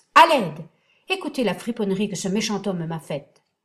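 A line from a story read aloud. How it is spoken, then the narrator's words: Shouting with full force. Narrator (French): s'écria-t-il de toute sa force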